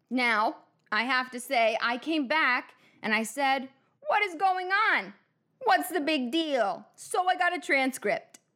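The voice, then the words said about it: Donald Trump impression. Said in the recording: “I'm going to do my own accent with my own voice ... I'm not going to bring myself to Trump ... I'm slipping into the accent.”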